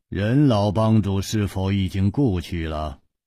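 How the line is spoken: Flat, after long silence. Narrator (Chinese): 天风大师默然半晌，淡淡地说

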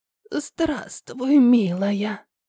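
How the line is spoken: Hoarse old woman's voice. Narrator (Russian): Сипло произнесла старуха

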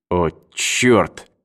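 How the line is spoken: Muttered. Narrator (Russian): пробормотал Эванс

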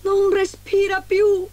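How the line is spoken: Dwarf shouting. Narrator (Italian): gridò il primo nano quando trovò Biancaneve

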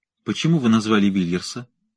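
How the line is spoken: Plain. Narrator (Russian): спросил он

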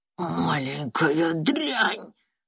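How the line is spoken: Hissed. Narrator (Russian): прошипел директор

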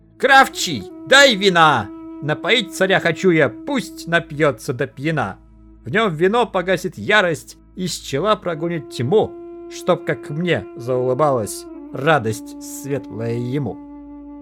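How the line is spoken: Alarmed shout. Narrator (Russian): судья беду почуял, крикнул

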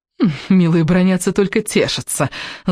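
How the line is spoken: Gloating laugh. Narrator (Russian): злорадно рассмеялась Летти

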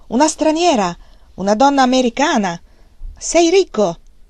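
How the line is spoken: Shouted, man. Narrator (Italian): l'uomo gli gridò

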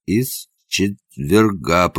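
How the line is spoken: Moan. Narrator (Russian): простонал он

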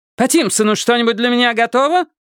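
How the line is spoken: Barking. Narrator (Russian): Рявкнула она Хардейкеру

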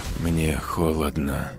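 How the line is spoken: Whispering to herself. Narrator (Russian): уже просто сама себе шептала Катрин

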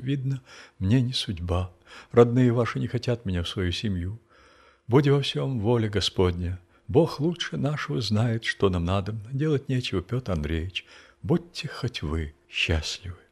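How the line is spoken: Trembling voice. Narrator (Russian): сказала дрожащим голосом

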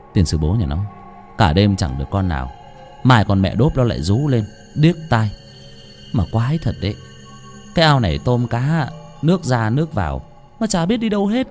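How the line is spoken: Frustrated muttered cursing. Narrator (Vietnamese): anh Thu nhà nọ đi cất vó, cất cả đêm cũng chẳng được con nào, mồm lẩm bẩm chửi thề

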